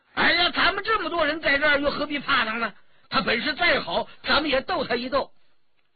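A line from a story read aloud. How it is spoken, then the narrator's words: Crying out. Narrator (Chinese): 张晋叫了起来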